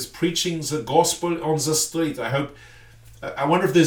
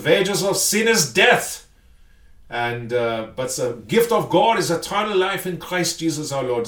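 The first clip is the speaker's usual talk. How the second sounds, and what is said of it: Put-on German accent. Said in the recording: “no, we don't sound like this. You make us sound like in all those movies where they were part of the Gestapo... I do love the German accent.”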